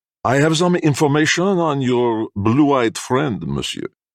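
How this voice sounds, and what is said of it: French-accented broken English. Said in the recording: “The Frenchman ... Jacques's very common and broken English”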